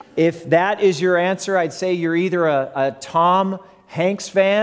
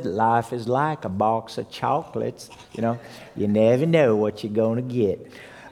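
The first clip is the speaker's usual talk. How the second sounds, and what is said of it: Forrest Gump impression. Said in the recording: “my best Forrest Gump imitation”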